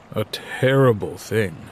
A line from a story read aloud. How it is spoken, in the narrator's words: Dad says gravely